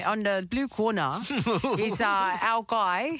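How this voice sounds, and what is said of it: Put-on South African accent. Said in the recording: “I'm going to put it in a South African. ... I'm going to do a South African accent.”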